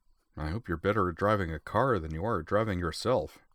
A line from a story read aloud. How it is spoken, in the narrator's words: Tenryu muttered